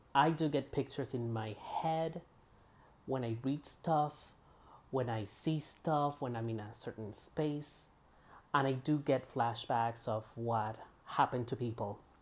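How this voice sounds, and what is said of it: Accented speech with voice cracking. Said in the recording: “my voice cracking and the mistakes plus the accent”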